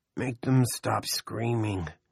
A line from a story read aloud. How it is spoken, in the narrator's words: Benny groaned